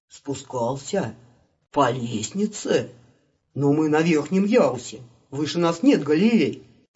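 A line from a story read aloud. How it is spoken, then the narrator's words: Timid whisper. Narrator (Russian): Робко прошептал недостойный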